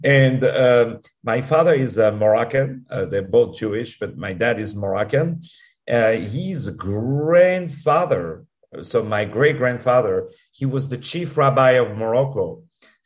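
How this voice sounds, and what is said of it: French accent. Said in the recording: “I was born in Paris, as you can hear with my accent”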